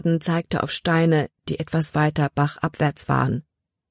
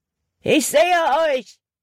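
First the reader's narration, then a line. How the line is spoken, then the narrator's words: Called out. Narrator (German): rief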